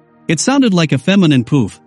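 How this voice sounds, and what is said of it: Shrill high-pitched voice. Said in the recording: “in a shrill voice.”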